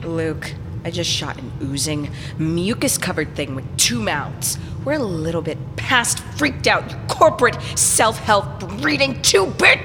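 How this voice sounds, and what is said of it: Raised, angry shouting voice. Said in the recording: “no need to raise your voice.”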